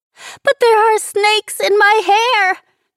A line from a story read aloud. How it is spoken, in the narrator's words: Nicole screeched again